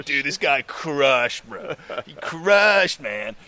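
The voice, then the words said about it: Put-on American accent. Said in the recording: “that's the American accent”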